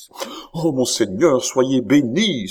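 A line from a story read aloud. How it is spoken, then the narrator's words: Old woman exclaiming. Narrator (French): s'écria la vieille comtesse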